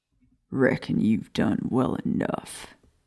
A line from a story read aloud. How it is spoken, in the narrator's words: Greyback rasped